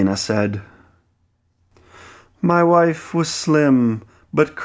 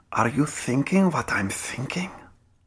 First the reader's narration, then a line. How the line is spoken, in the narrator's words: I whispered in her ear, pretty close